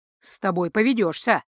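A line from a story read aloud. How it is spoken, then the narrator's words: Snort. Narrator (Russian): фыркнул Ро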